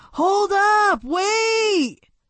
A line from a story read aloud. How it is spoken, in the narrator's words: Marcus was catching up to Sal, yelling